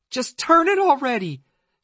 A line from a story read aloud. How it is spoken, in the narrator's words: she shouted